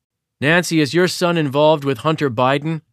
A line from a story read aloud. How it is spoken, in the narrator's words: he says, as restaurant goers yell at him to leave